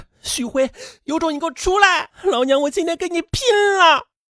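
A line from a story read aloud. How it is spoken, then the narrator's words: Heartbroken, furious shouting. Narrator (Chinese): 汪彤彤万箭穿心呐 高喊着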